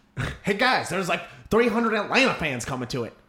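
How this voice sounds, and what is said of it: Imitated voice with slight twang. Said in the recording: “That was a really good impression. ... That had a little bit of twang to it. ... Really good impression.”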